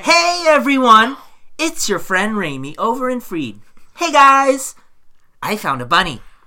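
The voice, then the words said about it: Impression of Raimi. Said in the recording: “I can even do a pretty good impression of you.”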